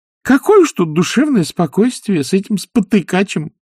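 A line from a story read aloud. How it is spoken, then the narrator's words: Cheerful. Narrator (Russian): весело сказал нянюшка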